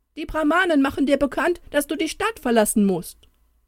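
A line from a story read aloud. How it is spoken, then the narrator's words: Messenger calling from afar. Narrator (German): Der Bote rief ihm aber schon aus weiter Ferne zu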